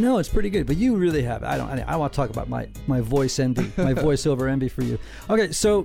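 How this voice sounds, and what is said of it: Usual voice. Nothing is said of it.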